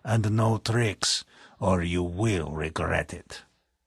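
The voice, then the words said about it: Commanding voice, foreign accent. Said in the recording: “he commanded in a foreign accent”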